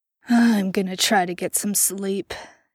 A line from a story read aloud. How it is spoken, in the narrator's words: Jensen muttered